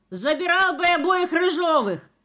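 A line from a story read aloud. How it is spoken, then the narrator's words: Falsetto shout. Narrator (Russian): крикнул фальцетом мастер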